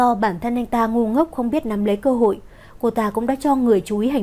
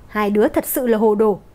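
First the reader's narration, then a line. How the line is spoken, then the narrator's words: Raised exasperated voice. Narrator (Vietnamese): Lê Tuyết Cầm không nhịn được cất cao giọng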